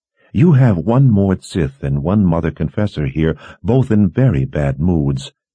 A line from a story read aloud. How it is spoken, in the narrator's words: Kalin said in a level voice